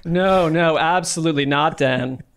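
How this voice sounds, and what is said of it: Imitates another person's voice. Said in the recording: “was that Graver impression ... spot on”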